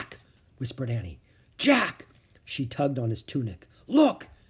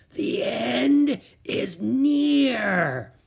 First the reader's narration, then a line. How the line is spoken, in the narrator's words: she said in a raspy voice